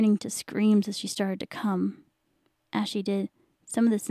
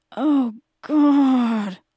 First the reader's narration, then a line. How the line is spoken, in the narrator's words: he moaned